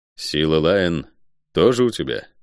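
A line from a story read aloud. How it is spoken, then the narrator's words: Dry, muffled question. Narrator (Russian): сухо спросил я из-под капюшона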